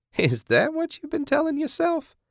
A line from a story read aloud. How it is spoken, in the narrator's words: Kathy laughed